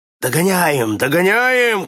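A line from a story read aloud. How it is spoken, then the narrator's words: Shouting man. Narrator (Russian): кричал тогда канадец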